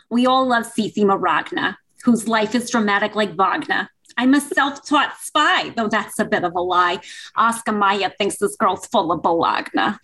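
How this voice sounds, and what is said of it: Put-on New Jersey accent. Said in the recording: “I got to say it in my Jersey accent, obviously.”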